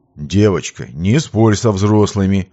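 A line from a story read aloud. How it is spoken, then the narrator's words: Gentle but firm objection. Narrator (Russian): Вроде и ласково, но в то же время твердо возразил Виктор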